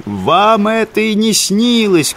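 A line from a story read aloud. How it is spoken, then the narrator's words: Shouting after someone. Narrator (Russian): кричал рыбак вслед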